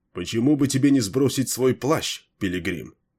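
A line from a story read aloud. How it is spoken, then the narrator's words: Plain. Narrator (Russian): спросил Лутвион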